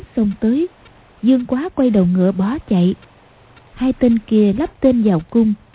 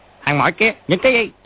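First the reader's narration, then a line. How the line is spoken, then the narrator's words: Soldiers shouting. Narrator (Vietnamese): Hai tên lính quát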